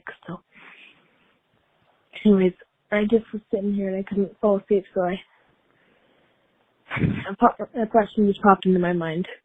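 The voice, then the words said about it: Quiet, sick-sounding voice. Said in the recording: “I'm going to be so quiet in this voicemail, but it's currently 11 o'clock at night... if my voice sounds a little weird, it's because I'm sick”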